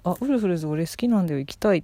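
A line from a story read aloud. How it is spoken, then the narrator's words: Plain. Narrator (Japanese): って言ってくれて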